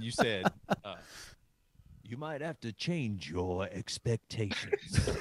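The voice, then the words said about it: Weak Morgan Freeman impression. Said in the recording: “It was like Morgan Freeman or something... That's not a good Morgan Freeman impression.”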